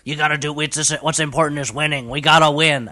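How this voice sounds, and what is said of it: Imitates another person's voice. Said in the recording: “did a Richard Nixon voice ... he was Nixon-y.”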